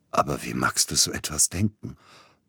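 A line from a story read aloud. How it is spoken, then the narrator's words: Hoarse. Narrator (German): brachte er heiser hervor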